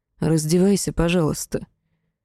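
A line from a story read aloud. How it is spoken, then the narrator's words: Low growl, then gentle request. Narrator (Russian): Демон глухо зарычал, но неожиданно ласково попросил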